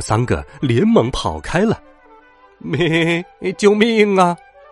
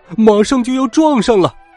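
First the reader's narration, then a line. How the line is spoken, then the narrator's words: Shouting. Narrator (Chinese): 青蛙弗洛格喊道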